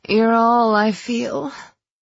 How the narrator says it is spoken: I moaned

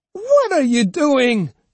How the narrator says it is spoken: she cried

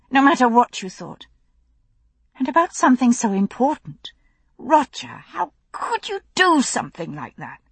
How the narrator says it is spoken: The tone of betrayal in her voice

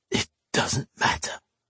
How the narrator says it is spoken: he hissed finally

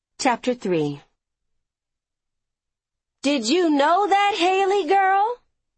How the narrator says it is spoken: Grandma Young called out from the sofa

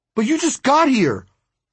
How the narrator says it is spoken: I blurted out

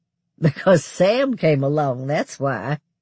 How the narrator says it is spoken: I said with a surprised laugh

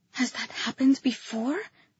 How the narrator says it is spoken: I whispered

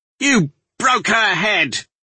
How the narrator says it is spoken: the man shouted

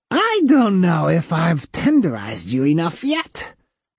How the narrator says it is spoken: the cyborg said in a high-pitched, demented squeal

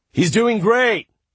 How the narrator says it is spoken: Rishi said loudly, hoping to drown them out

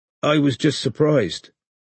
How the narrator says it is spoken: said Strike, evenly, refusing to be drawn into a fight

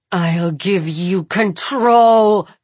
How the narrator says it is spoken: Jules growls, and every glass on the bar begins to shake

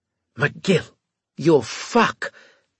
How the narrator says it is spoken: Turov hissed into my ear

